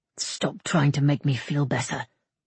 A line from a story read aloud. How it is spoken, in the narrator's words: Somerled muttered